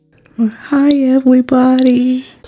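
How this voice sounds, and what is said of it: Small gentle creature character voice. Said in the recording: “you do the Waltor voice”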